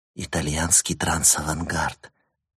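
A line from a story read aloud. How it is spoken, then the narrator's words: Whisper in ear. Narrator (Russian): прошептала София ему на ухо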